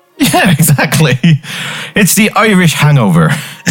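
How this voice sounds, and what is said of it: Put-on Irish accent. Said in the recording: “You went there with the accent?”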